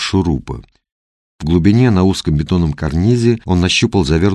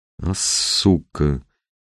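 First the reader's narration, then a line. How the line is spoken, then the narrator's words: Exhaled exclamation. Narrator (Russian): выдохнул Мухин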